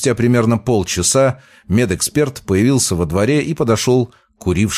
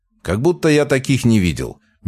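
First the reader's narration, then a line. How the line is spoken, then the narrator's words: Snorting grunt. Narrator (Russian): медэксперт хмыкнул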